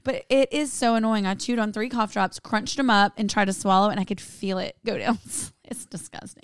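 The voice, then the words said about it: Hoarse, nearly lost voice. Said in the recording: “I'm so coarse. My voice is gone”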